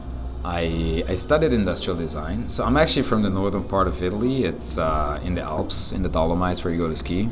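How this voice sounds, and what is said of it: Slight American twang. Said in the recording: “I feel like I can tell in an American twang, though. I feel like you've got like ... a bit of an American accent in there”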